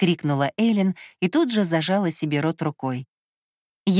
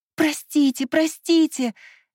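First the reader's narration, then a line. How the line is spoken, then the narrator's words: Flustered babbling. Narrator (Russian): залепетала Эллен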